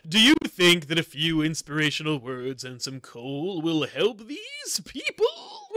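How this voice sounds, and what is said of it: Imitates another person's voice. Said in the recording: “do a George Takei impression”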